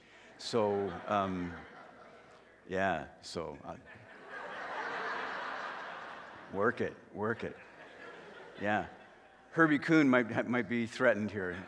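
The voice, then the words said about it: Deep, congested voice from a cold. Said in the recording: “I almost always get a spring cold ... Started the next day ... I'm in that radio voice stage”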